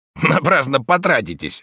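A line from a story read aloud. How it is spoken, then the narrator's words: Snorting. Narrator (Russian): фыркнул Слейтер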